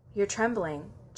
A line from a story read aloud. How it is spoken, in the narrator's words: Jack murmurs